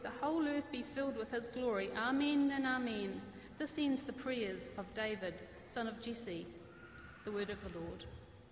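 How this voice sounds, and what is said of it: New Zealand accent. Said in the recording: “Wonderful New Zealand accent”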